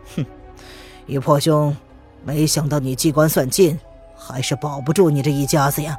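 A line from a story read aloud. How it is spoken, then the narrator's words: Cold. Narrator (Chinese): 陈林冷冷的说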